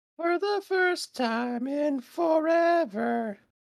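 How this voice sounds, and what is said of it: Deliberately bad falsetto singing. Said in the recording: “falsetto bad voice. I'm a musician, I sing well, but you know, falsetto bad voice, you know, gotta make it funny”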